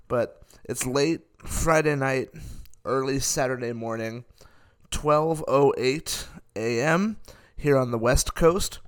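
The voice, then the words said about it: Tired, sleepy voice. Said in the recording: “you might be able to hear it in my voice. ... I am very tired at the moment. I am almost falling asleep.”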